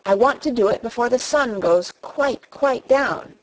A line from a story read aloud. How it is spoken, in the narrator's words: he said